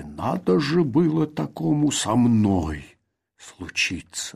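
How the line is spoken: Growling. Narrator (Russian): рычал он

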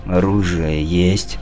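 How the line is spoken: Weak voice. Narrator (Russian): слабым голосом спросил он

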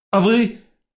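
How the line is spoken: Sharp cry. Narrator (Russian): Вскрикнул я

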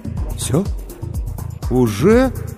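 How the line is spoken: Confused, drawn-out. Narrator (Russian): растерянно протянул Сергей

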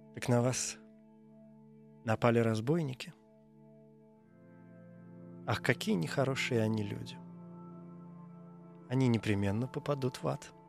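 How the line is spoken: Gentle, as to child. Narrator (Russian): девушка сказала ласково, как ребенку

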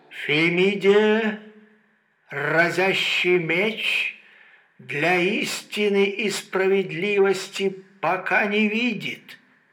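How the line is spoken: Rusty, sewer-like voice. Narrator (Russian): коллекторно-ржавым голосом подала всем присутствующим фразу

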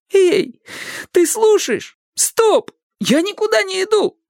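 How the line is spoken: Exclamation. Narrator (Russian): воскликнул Растяпа

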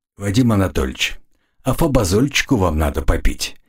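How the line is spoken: Soft advice. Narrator (Russian): мягко посоветовал я

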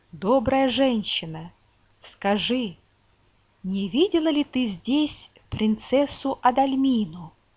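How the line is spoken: Plain. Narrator (Russian): спросил принц

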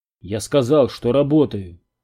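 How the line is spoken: Snapped. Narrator (Russian): огрызнулся Перри

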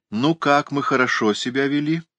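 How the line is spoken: Cheerful female question. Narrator (Russian): спросила она бодро

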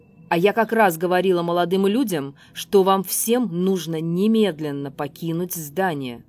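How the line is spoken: Menacing old woman. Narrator (Russian): грозно сказала старуха

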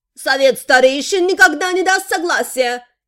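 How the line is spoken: Shouted, mage. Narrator (Russian): выкрикнул маг

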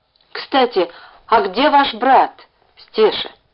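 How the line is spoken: Plain. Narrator (Russian): спросил Ленька

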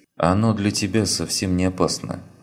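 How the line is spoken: Calm young woman. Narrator (Russian): спокойно произнесла девушка

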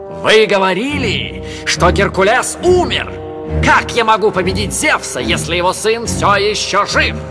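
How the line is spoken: Shouting in pain and panic. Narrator (Russian): Набросившись на боль и панику, он закричал

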